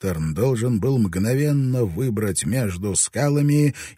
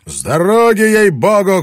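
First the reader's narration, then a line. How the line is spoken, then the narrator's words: Shout. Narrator (Russian): крикнул он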